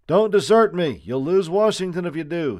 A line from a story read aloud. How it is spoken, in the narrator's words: shouted